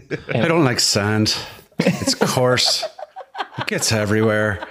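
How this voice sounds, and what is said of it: Put-on Irish accent. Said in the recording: “with a great Irish accent”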